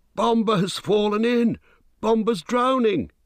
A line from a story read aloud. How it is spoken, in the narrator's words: he cried